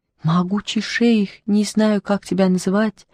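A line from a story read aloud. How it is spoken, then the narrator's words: Pleading. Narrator (Russian): взмолился Бобо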